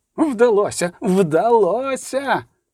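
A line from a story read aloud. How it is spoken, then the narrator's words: Shouted. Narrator (Ukrainian): крикнув, вриваючись до деканату, професор Опенхаузер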